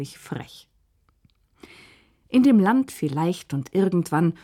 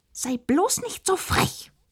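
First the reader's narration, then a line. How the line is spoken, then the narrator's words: Hissed angrily. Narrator (German): fauchte die Königin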